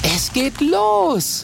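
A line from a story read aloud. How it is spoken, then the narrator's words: Calling out. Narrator (German): ruft Mathilda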